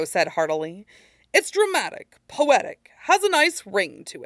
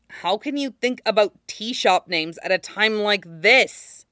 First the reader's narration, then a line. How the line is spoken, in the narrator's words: Zuko groaned